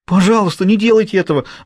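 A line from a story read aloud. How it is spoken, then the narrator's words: Pleading. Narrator (Russian): взмолился Хьюго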